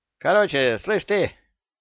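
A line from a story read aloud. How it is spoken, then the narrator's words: Angry speech. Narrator (Russian): сердито сказал Яга Сильверу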